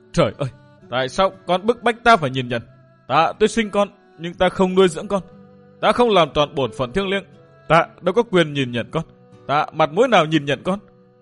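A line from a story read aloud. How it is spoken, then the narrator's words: Anguished choked moaning. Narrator (Vietnamese): Kim Xoa giáo chủ đau khổ vô cùng, bà nghẹn ngào rên rỉ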